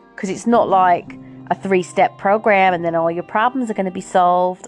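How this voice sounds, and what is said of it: Put-on American accent. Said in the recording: “I don't know why I did an American accent for that”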